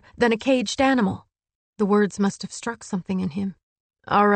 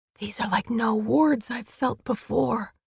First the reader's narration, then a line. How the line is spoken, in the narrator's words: she whispered